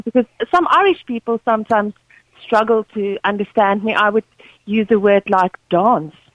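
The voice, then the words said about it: Afrikaans South African accent. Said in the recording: “You can hear the Afrikaans in my accent”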